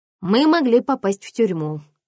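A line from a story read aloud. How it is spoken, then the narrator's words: Mother laughing. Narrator (Russian): засмеялась мама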